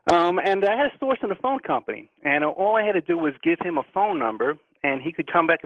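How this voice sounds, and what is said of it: New York accent. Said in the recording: “where I lived in New York City, as you can probably tell from my accent ... I haven't lost yet”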